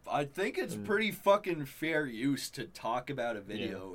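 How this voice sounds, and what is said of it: Usual voice. Nothing is said of it.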